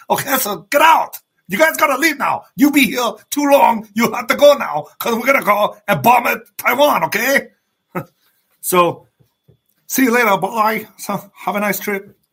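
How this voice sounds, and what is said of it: Imitates another person's voice. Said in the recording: “I got to give you guys some impersonations from time to time.”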